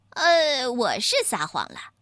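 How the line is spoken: Cheeky, grinning. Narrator (Chinese): 星星老二嬉皮笑脸的说

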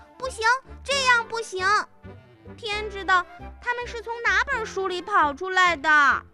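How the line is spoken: Alarmed shriek. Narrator (Chinese): 她尖叫起来

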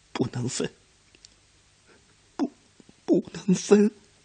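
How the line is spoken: Choked, heartbroken sobbing. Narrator (Chinese): 少安忍不住哭了起来，他哭得极其伤心，一腔汹涌的感情无法表述，只是哽咽地反复说

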